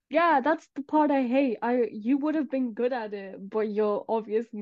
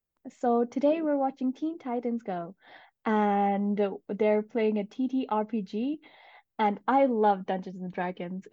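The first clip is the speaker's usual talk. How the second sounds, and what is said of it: Put-on American accent. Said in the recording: “do your American accent for me”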